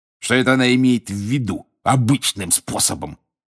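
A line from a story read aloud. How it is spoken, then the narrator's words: Snorting. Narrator (Russian): фыркнул он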